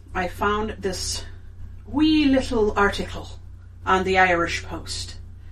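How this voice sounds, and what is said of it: Put-on Irish accent. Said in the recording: “Did you like my accent? ... A little bit. It's funny for you. ... I'm Irish-American”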